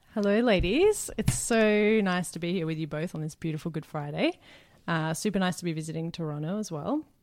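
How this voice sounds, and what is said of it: Australian accent. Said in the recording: “originally from Australia, which I'm sure you've gathered from the gorgeous accent she has”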